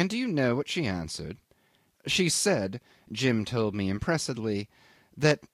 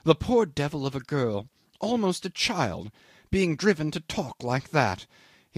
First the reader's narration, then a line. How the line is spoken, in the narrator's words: He exclaimed in horror